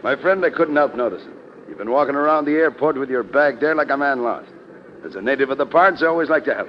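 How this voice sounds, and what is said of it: Irish accent. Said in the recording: “Okay, Irish. ... your accent”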